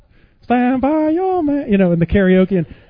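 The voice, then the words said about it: Put-on Filipino accent while singing. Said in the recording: “all these Filipino girls singing Stand By Your Man or whatever with, you know, the accent”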